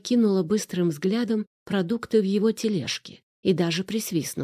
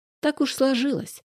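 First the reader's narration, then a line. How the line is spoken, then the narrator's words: Cheerful. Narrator (Russian): весело подтвердил Арсений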